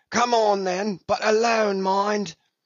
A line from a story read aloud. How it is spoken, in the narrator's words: Brown called out